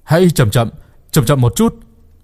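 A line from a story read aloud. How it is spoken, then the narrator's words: Calling out. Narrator (Vietnamese): Một người kêu lên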